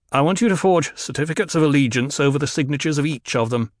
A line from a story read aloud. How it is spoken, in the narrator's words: the Duke said